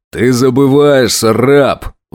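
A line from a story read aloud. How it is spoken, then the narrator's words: Roaring. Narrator (Russian): взревел Гурон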